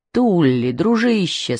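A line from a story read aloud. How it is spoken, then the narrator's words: Plain. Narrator (Russian): сказал один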